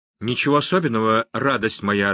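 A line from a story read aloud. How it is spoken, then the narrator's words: Calm. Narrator (Russian): отозвался Эстебан спокойно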